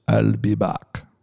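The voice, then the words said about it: Imitates a famous action star's voice. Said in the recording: “in my best Arnold Schwarzenegger voice,”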